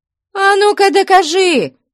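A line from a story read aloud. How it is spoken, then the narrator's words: Shouting. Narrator (Russian): кричала Мавра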